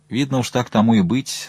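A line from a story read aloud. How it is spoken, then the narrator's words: Calm. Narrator (Russian): спокойно сказал он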